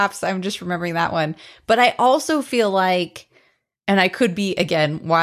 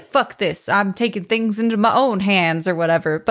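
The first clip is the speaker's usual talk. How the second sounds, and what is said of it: Imitates another person's voice. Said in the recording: “That was a dynamite impression of Eddie Murphy”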